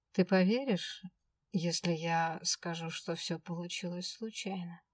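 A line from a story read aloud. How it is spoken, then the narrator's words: Calm. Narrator (Russian): спокойно проговорил Свен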